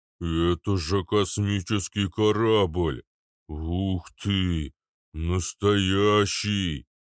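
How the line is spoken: Deep bass voice. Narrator (Russian): пробасил Арнольд

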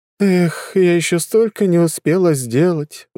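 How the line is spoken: Sighing. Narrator (Russian): вздохнула Лиза

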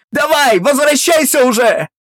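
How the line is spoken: Frantic scream. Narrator (Russian): Галя истошно закричала

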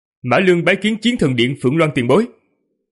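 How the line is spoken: Raised voice. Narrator (Vietnamese): Vương Lâm cao giọng nói

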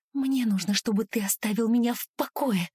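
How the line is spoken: Hissed, near-whisper. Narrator (Russian): Шипит она сквозь зубы, понижая голос почти до шепота

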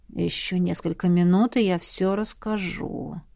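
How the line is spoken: Werewolf's weary mutter. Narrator (Russian): устало пробормотал оборотень

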